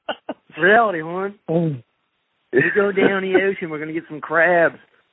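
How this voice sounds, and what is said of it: Baltimore dialect. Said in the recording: “You got me talking Baltimore. You got me talking my Baltimore dialect.”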